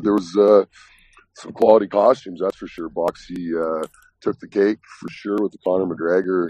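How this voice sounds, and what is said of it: Slightly raspy, strained voice. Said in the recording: “a little raspy here. Lost my voice a little bit singing”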